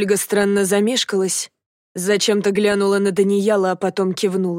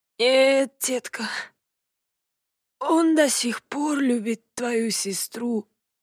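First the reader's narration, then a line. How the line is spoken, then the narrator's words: Whisper. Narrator (Russian): прошептал в ответ отец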